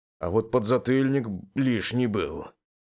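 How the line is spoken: Venomous, through gritted teeth. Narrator (Russian): процедил я сквозь зубы, ядовито улыбаясь

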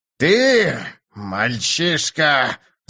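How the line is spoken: Growling, groping for words. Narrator (Russian): зарычал он, явно не зная, какой еще эпитет подобрать

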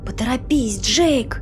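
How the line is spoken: Whispered. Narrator (Russian): прошептала Сюзанна

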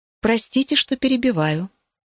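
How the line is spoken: Purred. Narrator (Russian): промурлыкала

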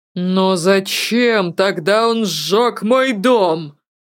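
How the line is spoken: Near-furious shout. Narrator (Russian): почти с яростью выкрикнул Ирионус

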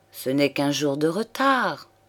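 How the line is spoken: Murmured. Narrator (French): murmura-t-il

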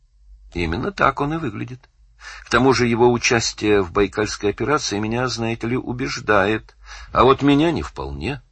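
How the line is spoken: Plain. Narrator (Russian): сказал Данил

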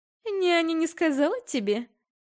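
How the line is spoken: Snide, smiling. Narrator (Russian): ехидно улыбнулась Валерия

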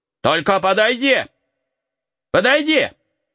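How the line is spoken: Shouted. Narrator (Russian): закричал

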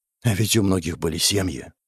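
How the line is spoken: Mutter. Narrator (Russian): пробормотал он

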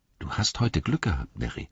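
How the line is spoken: Quiet, after long pause. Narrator (German): sagte Pippin leise, nach einer langen Pause

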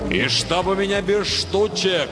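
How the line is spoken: Thundering farewell. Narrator (Russian): прогремел на прощание Нильзиул

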